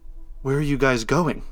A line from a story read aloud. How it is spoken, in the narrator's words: from somewhere in my maniac brain, I sputtered out